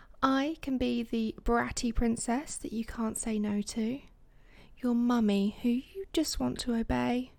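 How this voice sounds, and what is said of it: British accent. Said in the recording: “a character with a British accent”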